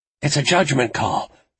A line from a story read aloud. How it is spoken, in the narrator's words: she said, panting